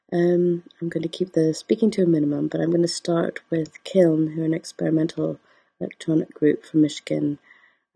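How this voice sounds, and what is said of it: Voice affected by a cold. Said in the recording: “I've got a little bit of a cold, so you'll have to excuse my voice”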